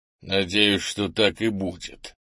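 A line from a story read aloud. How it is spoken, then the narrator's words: Angry mutter through teeth. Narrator (Russian): зло процедил Крис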